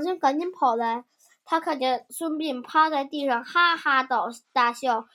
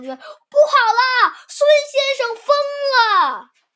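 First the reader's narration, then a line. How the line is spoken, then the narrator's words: Frightened, urgent report. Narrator (Chinese): 吓得老头赶紧去禀报庞涓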